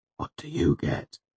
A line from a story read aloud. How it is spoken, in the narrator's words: He asked, his voice a dry whisper